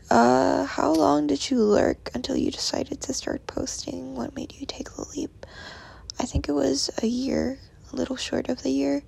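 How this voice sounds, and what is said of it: Croaky just-woke-up voice. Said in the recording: “my voice is weird. I just woke up, so. Very croaky.”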